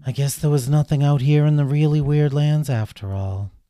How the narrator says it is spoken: Kitty sighed, and she said

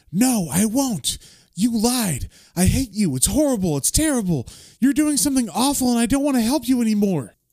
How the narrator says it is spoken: she's yelling at him

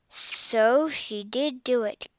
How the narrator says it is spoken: Cassie murmured

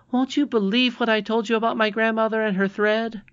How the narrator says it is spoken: she cried

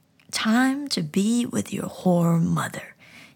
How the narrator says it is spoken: he snarled

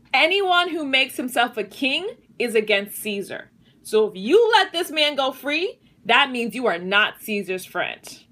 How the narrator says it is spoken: the Jewish leader shouted

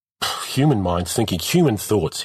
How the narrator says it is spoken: he snapped back

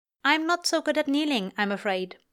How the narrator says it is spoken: Aziraphale informs her curtly

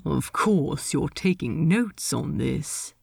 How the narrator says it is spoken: Ed muttered

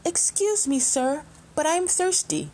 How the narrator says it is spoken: Keeping a safe distance, the little fish called out

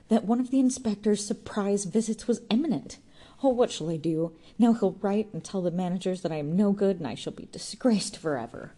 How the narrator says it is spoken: gasped petulantly

